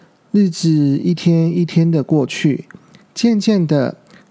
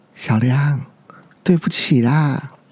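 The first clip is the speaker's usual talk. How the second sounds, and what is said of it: Very quiet, soft voice. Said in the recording (Chinese): “很小声的说”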